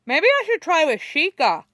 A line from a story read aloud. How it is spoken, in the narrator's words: he says, cheerfully, around a mouthful of rice